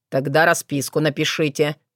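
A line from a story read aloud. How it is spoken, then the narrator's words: Through gritted teeth. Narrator (Russian): процедил Соколовский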